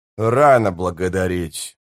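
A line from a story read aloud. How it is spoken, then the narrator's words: Gentle grumble. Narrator (Russian): проворчал Спрут, но при этом слегка улыбнулся, чтобы не прозвучало обидно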